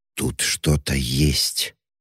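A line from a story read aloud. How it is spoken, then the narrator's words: Quiet, terrified voice. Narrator (Russian): ответила Лиз тихим голосом, полным ужаса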